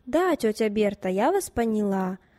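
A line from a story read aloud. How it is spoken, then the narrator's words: Plain. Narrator (Russian): ответила Катя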